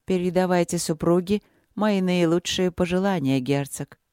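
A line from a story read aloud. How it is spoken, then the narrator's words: Polite formal tone. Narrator (Russian): светским тоном проговорила царица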